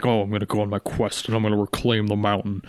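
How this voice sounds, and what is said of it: Impression of Thorin character voice. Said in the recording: “my Thorin impression, just awesome”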